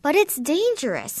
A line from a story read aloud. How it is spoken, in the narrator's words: my mother exclaimed